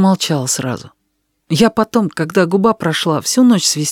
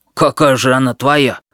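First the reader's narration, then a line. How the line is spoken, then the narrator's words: Offended huffing. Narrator (Russian): обиженно пыхтя сказал Витька Солобоев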